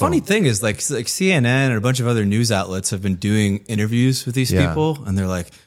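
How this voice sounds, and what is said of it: Usual voice. Nothing is said of it.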